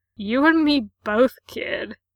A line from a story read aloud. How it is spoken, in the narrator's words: Ray grunts